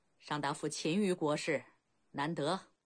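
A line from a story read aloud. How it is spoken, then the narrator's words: Relieved smile. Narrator (Chinese): 孟尝君释然一笑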